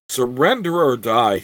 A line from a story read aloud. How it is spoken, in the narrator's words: he shouted